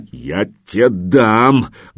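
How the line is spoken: Menacing bark. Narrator (Russian): грозно рявкнул

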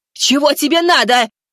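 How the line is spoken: Nerve-frayed woman's shout. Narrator (Russian): выкрикнула женщина, нервы которой, похоже, вот-вот должны были отказать

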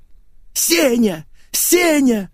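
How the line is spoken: Television yelling. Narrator (Russian): завопил телевизор

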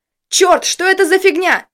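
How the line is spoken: Yell. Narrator (Russian): заорал Костя

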